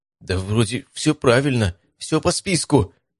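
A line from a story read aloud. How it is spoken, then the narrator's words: Uncertain. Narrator (Russian): неуверенно сказал парень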